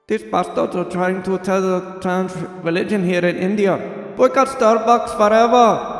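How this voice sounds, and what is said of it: Weak put-on Indian accent. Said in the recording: “Well, I guess I'll just do an Indian voice here, but I really can't.”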